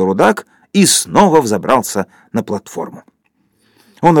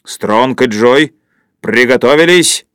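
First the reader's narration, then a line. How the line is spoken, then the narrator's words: Thunderous voice. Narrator (Russian): громовым голосом сказал рудак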